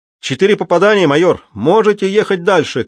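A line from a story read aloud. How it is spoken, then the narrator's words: Shouting. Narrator (Russian): крикнул распорядитель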